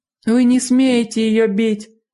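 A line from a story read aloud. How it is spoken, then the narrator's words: Shout. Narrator (Russian): закричала Дженни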